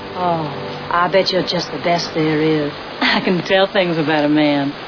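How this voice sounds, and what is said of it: Southern US accent. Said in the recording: “I can't quite place your accent ... Whereabouts in the South are you from?”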